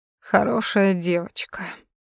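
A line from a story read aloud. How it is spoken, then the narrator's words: Purring. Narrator (Russian): промурлыкал Тони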